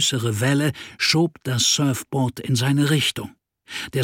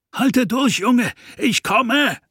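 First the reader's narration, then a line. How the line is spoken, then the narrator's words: Shouting over waves. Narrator (German): rief er gegen die Wellen an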